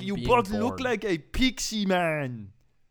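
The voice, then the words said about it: Imitates another person's voice. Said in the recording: “Here's my impression of Arnold.”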